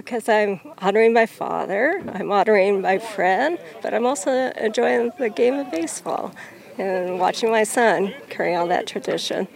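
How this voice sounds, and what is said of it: Slightly emotional voice. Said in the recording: “You can tell I'm probably a little emotional right now”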